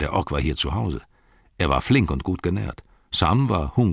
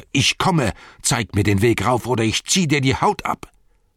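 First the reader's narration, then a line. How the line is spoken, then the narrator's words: Shouted. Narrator (German): schrie er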